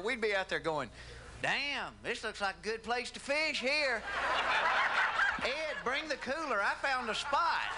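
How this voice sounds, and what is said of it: Southern US accent. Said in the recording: “it's hard to be cool with a Southern accent ... You can't do that with a Southern accent”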